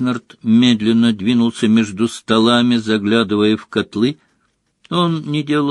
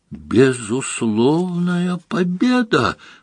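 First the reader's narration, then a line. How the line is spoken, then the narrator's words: Loud echoing exclamation. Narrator (Russian): воскликнул он на все подземелье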